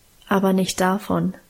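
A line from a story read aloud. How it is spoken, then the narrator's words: Calm answer. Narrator (German): antwortete Guste ruhig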